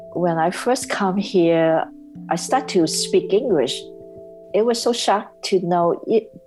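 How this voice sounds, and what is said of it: Non-native English accent. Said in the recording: “they don't understand my accent. They don't get my broken English.”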